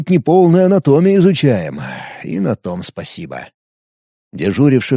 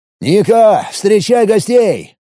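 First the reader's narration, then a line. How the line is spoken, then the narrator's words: Immediate shout. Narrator (Russian): сходу выкрикнул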